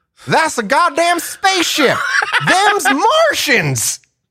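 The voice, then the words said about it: Put-on Southern drawl. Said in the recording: “I'm just going to go Southern drawl here.”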